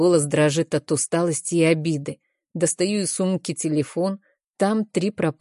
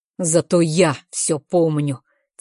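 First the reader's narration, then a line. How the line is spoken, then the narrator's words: Through gritted teeth. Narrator (Russian): цедит Дэйв сквозь зубы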